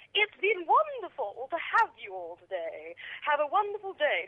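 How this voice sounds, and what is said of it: Put-on posh British voice. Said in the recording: “she had like a lovely Cockney accent ... She put this really posh voice on”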